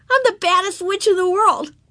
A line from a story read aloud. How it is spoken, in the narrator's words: she cried